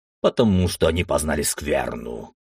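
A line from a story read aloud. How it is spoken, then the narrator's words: Warrior's deep bass. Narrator (Russian): пробасил воин Тараса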